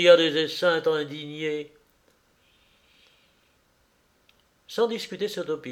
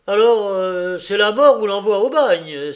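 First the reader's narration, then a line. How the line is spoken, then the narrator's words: Exasperated exclamation. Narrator (French): s'exclama les Hyacinthes exaspérés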